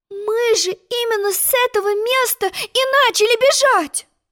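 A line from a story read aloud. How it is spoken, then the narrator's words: Exclaimed. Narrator (Russian): воскликнула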